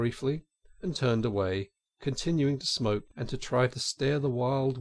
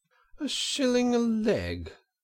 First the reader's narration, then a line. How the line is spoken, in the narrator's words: cried Toad